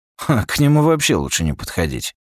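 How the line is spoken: Snorting. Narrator (Russian): хмыкнул Такахаси

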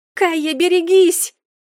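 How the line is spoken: Scream. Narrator (Russian): завопила Мерле

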